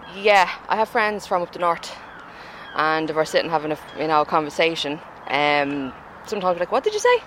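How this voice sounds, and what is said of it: Dublin Irish accent. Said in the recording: “People would know straight away I'm from Dublin... the minute I open my mouth, oh, she's a dub... she's from Drimnagh”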